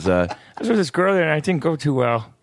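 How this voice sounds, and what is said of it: High-pitched Ray Romano-like voice. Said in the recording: “like a high-pitched Ray Romano ... It's a little bit of when he laughs ... that sounds like a kid who's got some problems”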